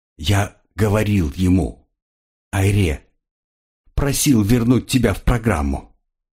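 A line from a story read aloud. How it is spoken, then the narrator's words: Even voice. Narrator (Russian): ровным голосом сообщил Тимур Алк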